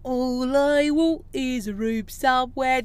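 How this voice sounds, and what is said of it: Put-on Cockney accent, poorly done. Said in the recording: “I did a cocky accent. Awful.”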